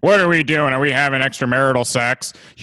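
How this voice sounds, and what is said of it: Imitates another person's voice. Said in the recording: “I feel like I'm watching Jim Gaffigan right now. ... It was a good impression. ... it's a good Gaffigan.”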